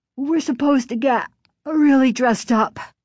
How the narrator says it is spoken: Chris said, yawning

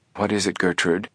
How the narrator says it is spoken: their mother's voice asked softly

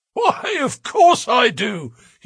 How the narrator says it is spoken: he wheezed

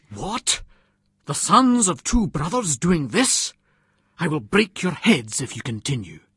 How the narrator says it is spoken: a man stepped between us and separated us, exclaiming

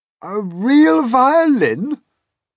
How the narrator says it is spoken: the old green grasshopper cried

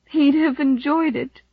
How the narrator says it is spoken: she sobbed

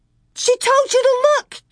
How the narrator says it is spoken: Carrie screamed

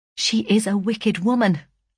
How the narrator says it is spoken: I said

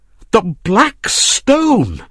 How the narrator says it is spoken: cried

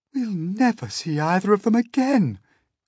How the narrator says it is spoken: cried the ladybird

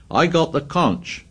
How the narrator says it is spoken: he shouted

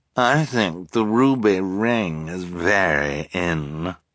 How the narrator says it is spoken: Esme purred

